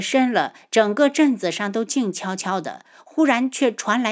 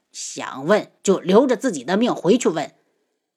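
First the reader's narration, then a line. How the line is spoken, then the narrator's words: Angry. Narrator (Chinese): 轩辕火怒声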